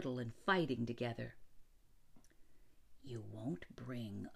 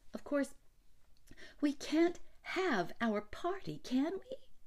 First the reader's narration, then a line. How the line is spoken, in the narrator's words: She pleaded